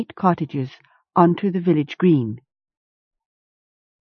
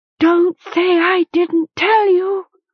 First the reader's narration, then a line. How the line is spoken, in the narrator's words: Wind cried